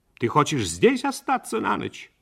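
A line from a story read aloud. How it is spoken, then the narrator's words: Sharp mother's question. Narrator (Russian): Мать резко спросила у него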